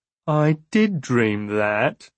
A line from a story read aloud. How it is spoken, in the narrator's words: he whined